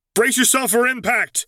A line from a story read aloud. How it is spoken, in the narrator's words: he yelled over his shoulder